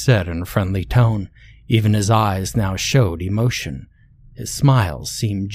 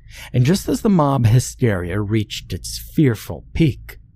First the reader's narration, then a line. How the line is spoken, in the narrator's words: Jackson chuckled